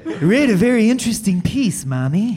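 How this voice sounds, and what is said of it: Bad imitation of another person's voice. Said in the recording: “Bad Reagan impression?”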